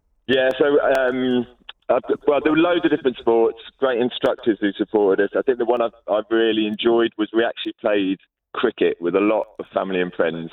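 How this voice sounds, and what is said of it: Hoarse, worn-out voice. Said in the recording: “my voice is kind of gone because I was cheering and celebrating it so much”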